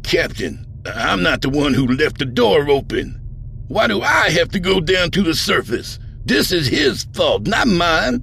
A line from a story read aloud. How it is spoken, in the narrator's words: Vardal with a look of sharp dismay and sputtered